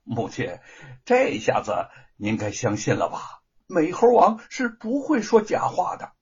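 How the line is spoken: Smiling. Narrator (Chinese): 玉凤笑着说

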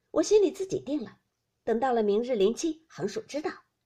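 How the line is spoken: Laughing. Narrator (Chinese): 李纨笑道

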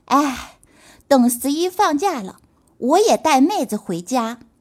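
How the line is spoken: Soft sigh. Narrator (Chinese): 陈博也跟着轻叹呀

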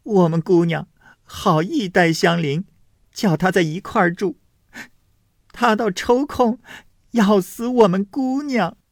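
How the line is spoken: Crying out in tears. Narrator (Chinese): 宝蟾便哭喊说

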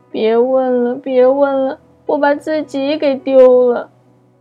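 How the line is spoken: Crying. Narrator (Chinese): 一边哭一边说

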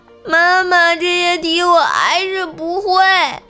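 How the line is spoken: Crying child. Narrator (Chinese): 我妈生气就打了我几下，打完之后我哭着对我妈说

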